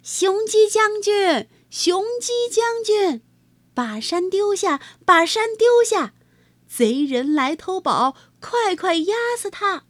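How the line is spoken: Loud shout. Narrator (Chinese): 银豆 也高声叫道

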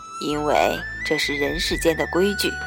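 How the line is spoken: Soft sigh. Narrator (Chinese): 阿爹似乎轻叹了口气，道

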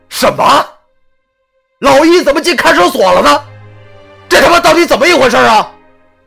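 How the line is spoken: Loud shout. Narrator (Chinese): 一咬牙 对着石头大声喊道

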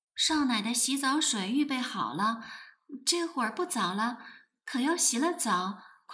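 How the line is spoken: Low voice. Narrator (Chinese): 小丫头低声道

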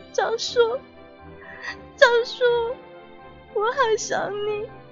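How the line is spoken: Weak, tearful voice. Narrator (Chinese): 哭着，声音是那么的微弱

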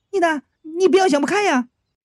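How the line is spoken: Shout. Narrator (Chinese): 月营上 喊

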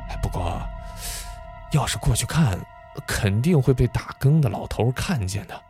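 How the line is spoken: Whispered. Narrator (Chinese): 谢如秀悄声地说道

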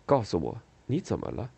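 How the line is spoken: Soft question. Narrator (Chinese): 恩佐轻声问他

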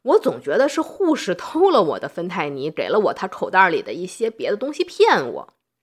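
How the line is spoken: Joking patient. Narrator (Chinese): 其中有一位患者后来和他的朋友开玩笑啊，就说

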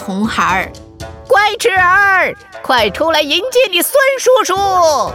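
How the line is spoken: Smug, deliberate loud shout. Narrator (Chinese): 他又得意地 故意大叫

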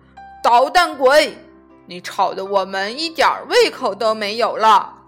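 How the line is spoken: Loud exasperated scolding. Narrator (Chinese): 爸爸妈妈受不了了，就大声的训斥他

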